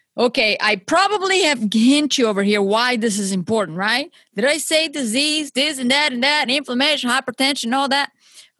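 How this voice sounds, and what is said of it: Strong non-native English accent. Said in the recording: “Maybe you're not understanding my English here. My accent might be a little too strong for you.”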